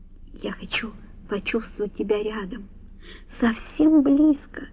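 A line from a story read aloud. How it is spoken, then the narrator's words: Whispered. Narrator (Russian): прошептала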